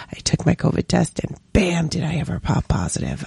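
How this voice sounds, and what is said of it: Strained voice, starting to go hoarse. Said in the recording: “I've got a sore throat, I have a little bit of a cough, I feel here my voice is starting to go”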